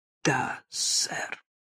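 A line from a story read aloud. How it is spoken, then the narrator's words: Forced out with effort. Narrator (Russian): каким-то образом выдавила из себя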